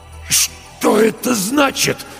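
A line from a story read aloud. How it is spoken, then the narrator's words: Strained, forced out. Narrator (Russian): с трудом выдавил Стольберг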